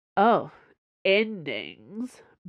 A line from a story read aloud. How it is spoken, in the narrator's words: Buck slurred